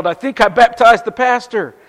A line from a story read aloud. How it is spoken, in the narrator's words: the young guy came up out of the water and looked at a stunned congregation on the shore, and he yelled